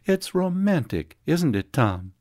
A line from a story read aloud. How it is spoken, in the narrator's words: Her voice sang